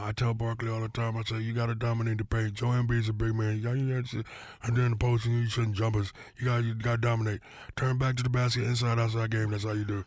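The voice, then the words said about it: Imitates another person's voice. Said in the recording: “You're the king of impersonations. Is there a sports figure that you love to impersonate? ... Shaq's probably the most I get uh, asked to do. Uh, probably the easiest.”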